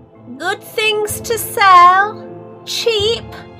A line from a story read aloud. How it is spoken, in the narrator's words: she yelled